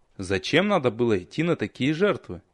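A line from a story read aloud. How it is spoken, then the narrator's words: Quiet, resigned question. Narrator (Russian): спросил я тихо, не надеясь на ответ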